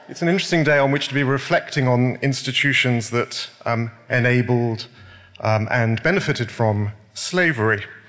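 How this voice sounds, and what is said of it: British accent. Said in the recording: “noting her accent as well. You may have noticed mine. I speak as a citizen of the UK.”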